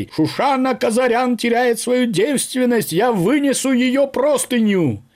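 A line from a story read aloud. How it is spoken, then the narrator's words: Loud herald-like shout. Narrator (Russian): Параджанов закричал, как средневековый глашатай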